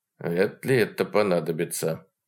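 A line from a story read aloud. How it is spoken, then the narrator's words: Muttering. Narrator (Russian): бормотнул Вовка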